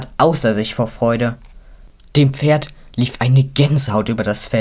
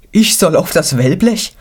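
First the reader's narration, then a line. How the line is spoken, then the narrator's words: Anxious question. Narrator (German): fragte ängstlich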